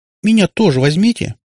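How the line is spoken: Squeaked. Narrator (Russian): пискнула Наташка

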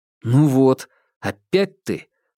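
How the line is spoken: Exclaiming. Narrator (Russian): воскликнул он

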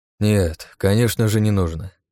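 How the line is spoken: Sighing. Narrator (Russian): вздохнул Багратион

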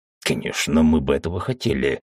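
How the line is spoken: Angry booming. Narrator (Russian): сердито громыхнул Уталак

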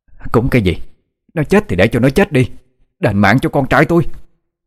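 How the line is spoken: Woman shouting loudly. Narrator (Vietnamese): Dì ta hét to

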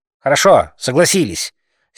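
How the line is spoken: Angry speech. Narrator (Russian): сердито сказал Макроусов

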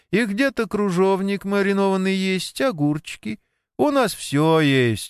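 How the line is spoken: Proud exclamation. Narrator (Russian): гордо воскликнула она

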